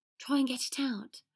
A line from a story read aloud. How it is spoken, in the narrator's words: Ron whispered